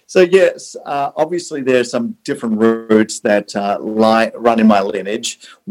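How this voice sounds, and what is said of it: South African and Australian accent. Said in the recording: “your accent is not an Orange County accent ... I tell people I have a Southern accent, but obviously when I was in the South, they go, "Well, obviously it's not a Southern accent." ... I was born in South Africa ... living in Australia”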